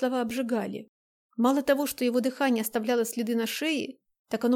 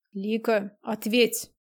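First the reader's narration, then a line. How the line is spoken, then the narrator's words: Low with growling notes. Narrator (Russian): голос не повышал, только рычащие нотки появились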